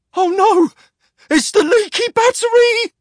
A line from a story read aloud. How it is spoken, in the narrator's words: cried the terrified lookout on the HMS Regency